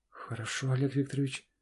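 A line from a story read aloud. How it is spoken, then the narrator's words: Strained, forced young woman. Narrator (Russian): с трудом выдавила себя девушка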